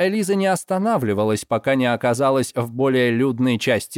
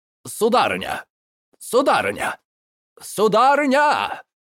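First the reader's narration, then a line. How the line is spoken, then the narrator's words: Repeated shouting. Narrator (Russian): Несколько раз выкрикнул де Жекс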